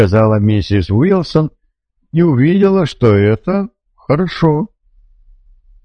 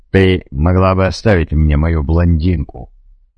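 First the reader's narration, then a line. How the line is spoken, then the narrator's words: Grumbled. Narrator (Russian): буркнул Адам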